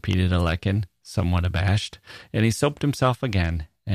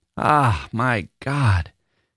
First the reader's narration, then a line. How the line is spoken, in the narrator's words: he kept exclaiming in his enjoyment